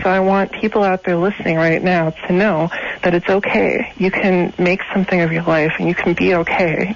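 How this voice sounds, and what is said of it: Shaky, nervous voice. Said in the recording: “My voice is shaking.”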